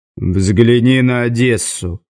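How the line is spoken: Glum advice. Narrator (Russian): уныло посоветовал Завулон

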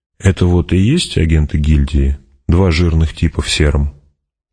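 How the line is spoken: Quiet aside. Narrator (Russian): негромко сказал в сторону, обращаясь к Гурне

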